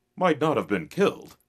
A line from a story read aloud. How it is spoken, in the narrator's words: exclaimed the cowboy